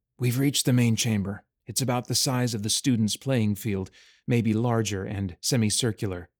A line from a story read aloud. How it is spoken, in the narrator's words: he whispered back to her